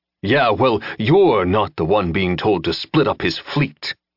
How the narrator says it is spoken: Jensen growled

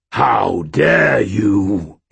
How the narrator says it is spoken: roared

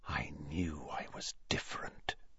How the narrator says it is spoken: he whispered to his own quivering fingers

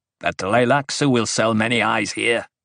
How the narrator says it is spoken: someone near Paul growled

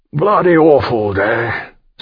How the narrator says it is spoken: Seymour said wearily

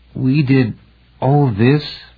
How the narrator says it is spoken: Patricia asked, her voice unsteady

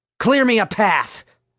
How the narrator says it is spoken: Vince yelled

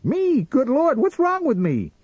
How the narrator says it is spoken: he shrieked

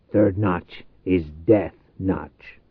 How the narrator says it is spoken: growled

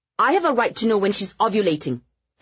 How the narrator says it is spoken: Eleanor snapped

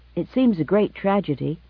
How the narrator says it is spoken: he said

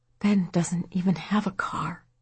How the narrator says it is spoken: Patty said in a barely audible voice

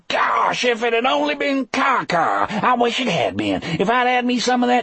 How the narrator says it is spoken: Wharton held his belly and howled

